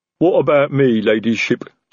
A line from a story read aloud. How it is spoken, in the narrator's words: Detritus rumbled